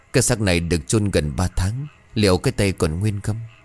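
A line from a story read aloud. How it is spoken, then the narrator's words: Fat man muttering. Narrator (Vietnamese): Một thằng khác tàu béo đầu chọc lóc lẩm bẩm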